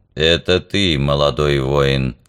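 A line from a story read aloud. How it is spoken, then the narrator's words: Sepulchral voice. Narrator (Russian): за могильным голосом промолвил Вок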